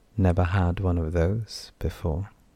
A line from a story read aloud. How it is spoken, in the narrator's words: she said quietly